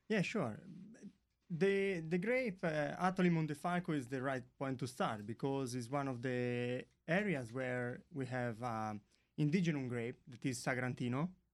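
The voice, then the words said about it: Noticeable foreign accent. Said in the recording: “Would you listen to that accent? ... Sorry for the accent.”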